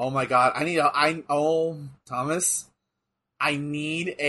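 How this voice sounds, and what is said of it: Usual voice. Nothing is said of it.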